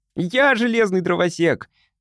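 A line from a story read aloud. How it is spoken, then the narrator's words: Shout. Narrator (Russian): крикнул Тимми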